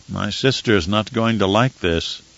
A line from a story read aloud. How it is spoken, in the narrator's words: Romber muttered